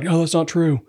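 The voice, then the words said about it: Poor Joe Biden impression. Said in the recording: “my accents are bad”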